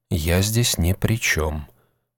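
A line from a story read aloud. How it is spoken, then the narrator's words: Quiet whisper. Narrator (Russian): также тихо прошептал странник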